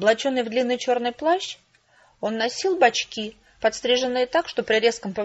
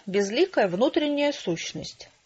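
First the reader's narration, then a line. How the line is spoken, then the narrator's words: Quiet young man. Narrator (Russian): тихо заговорил молодой художник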